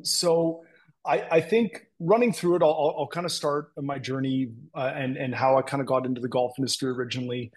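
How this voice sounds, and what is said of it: Thick Canadian accent. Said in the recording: “pardon my Canadian accent. It is quite thick at times, depending on the words I use”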